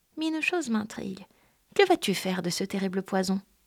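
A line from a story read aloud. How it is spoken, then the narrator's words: Snake sighing. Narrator (French): Le serpent soupira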